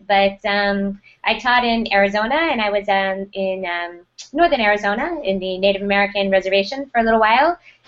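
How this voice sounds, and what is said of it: American accent. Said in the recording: “I'm obviously from the United States based on my accent”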